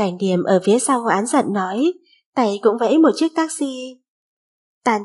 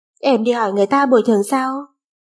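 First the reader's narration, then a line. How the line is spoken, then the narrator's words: Laughing. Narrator (Vietnamese): Ngô Viễn Khang bật cười lên tiếng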